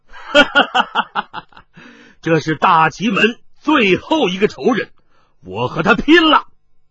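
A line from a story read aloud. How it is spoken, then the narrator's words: Wild laughter. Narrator (Chinese): 云逸狂笑道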